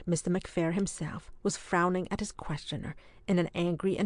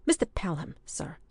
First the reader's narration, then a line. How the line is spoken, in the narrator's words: he said sharply